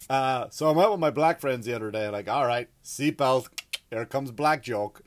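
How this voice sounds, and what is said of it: Irish accent. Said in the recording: “I have an accent. Hard to tell, right? I have an accent ... Irish people are great storytellers, so we have a good accent for storytelling”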